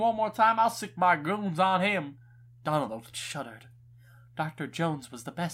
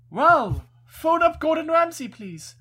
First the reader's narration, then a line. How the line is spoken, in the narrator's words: Trump called out